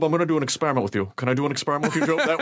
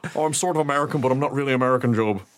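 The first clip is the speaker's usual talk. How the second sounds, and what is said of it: Weird, vaguely American put-on accent. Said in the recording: “That weird accent that Pierce Brosnan was doing.”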